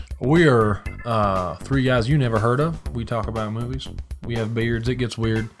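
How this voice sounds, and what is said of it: Put-on Southern accent. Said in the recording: “with a Southern accent today”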